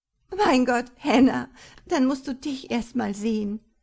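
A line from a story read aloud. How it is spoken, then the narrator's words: Half sobbing, half laughing. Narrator (German): erwiderte sie halb schluchzend, halb lachend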